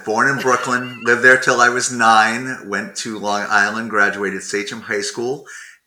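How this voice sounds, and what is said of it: Long Island New York accent. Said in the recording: “accent to me as a former Long Islander ... that familiar, that familiar accent”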